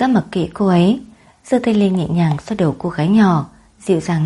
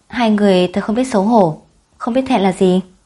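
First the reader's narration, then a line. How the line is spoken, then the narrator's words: Angry accusation. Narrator (Vietnamese): tức giận lên án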